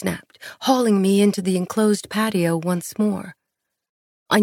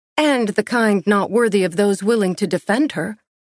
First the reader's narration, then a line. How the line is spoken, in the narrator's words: I snapped